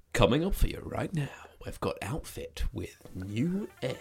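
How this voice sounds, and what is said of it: Radio DJ voice. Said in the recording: “your best radio voice”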